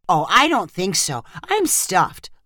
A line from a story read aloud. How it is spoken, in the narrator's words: Lyrica answered